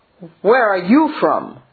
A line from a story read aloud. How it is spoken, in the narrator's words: the youth shouted